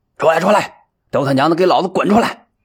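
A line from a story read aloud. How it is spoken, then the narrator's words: Howling. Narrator (Chinese): 他的嚎叫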